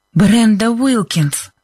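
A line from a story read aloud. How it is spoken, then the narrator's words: Breathless exhale. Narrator (Russian): выдохнула Либби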